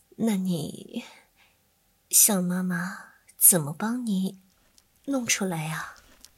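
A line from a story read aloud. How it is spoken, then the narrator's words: Tender, affectionate. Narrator (Chinese): 边说着 一脸疼爱的表情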